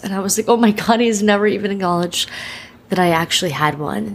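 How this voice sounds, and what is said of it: Emotional, near-tearful voice. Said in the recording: “I'm getting emotional ... I could cry”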